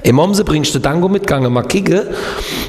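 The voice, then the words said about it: Kehl am Rhein local dialect. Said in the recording (German): “was macht man in deinem Dialekt? ... wie geht nochmal Kehl am Rhein, wo ich gelebt habe?”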